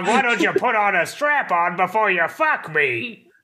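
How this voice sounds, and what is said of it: Cartoon character voice impression. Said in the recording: “my Oolong impression. It's the best I got for Oolong.”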